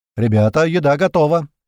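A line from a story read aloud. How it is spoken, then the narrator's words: Loud shout filling cave. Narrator (Russian): громко крикнул на всю пещеру Котлета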